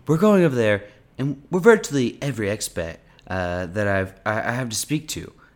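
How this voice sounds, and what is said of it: Donald Trump impression. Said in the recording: “You got to say it in his accent. ... You want me to do this whole thing in a Trump accent?”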